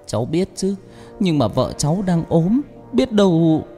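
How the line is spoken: Trembling voice. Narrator (Vietnamese): Chồng Thoa nói bằng giọng run run

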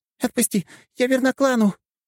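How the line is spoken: Squeaky, struggling. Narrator (Russian): пищала она, пытаясь вырваться

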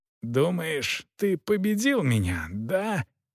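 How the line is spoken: Hissing through teeth in pain. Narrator (Russian): шипел сквозь зубы от боли шут

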